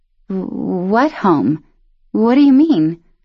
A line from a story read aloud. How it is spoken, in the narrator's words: Luce stammered